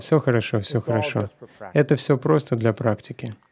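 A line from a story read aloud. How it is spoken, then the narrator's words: Soft chuckling. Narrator (Russian): Шрила Прабхупада тихо посмеивался и сказал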